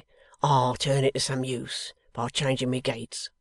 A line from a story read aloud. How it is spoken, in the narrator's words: said Riderhood gruffly